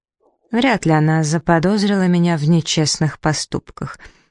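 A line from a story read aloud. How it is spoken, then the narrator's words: Lazy. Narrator (Russian): лениво произнес Алистейр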